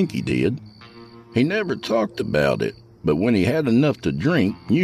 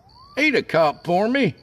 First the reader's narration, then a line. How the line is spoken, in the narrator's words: I called out